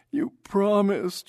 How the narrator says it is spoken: she wailed bitterly

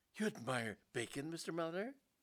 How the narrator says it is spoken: she asked eagerly

